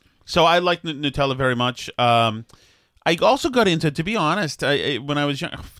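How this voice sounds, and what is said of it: Boston accent. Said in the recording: “there's my Boston accent”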